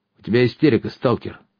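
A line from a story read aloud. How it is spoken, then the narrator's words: Stern interruption. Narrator (Russian): строго оборвал меня Тополь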